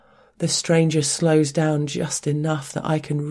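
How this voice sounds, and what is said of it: Usual voice. Nothing is said of it.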